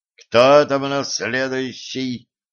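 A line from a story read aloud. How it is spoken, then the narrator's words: Growled. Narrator (Russian): прорычал агент 12-го уровня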